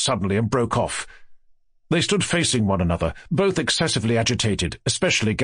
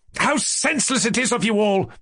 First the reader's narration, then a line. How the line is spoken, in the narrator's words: Varya snapped out in indignation